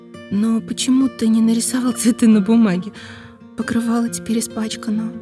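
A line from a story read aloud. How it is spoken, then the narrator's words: Sad mother. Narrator (Russian): грустно сказала мама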